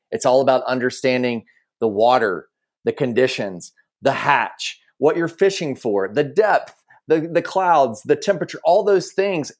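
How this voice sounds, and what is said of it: Southern American accent. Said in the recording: “I do have a Southern accent”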